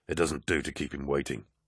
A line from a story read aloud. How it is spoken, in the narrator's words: Aximand grumbled